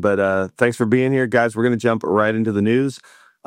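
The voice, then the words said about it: Hoarse, strained voice. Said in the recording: “my voice is shot from the conference. It's loud everywhere, so I feel like I'm yelling”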